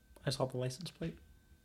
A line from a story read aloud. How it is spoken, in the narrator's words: I just mutter